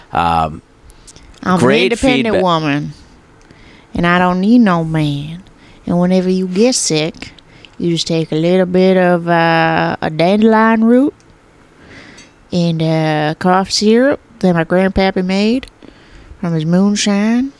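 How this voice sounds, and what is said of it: Put-on Southern US accent. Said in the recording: “I was doing the southern accent ... how that accent goes”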